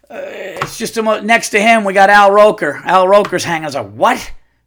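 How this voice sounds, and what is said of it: Yelling, loud agitated speech. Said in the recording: “I'm yelling.”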